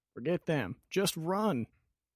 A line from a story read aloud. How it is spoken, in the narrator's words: shouts as he barrels past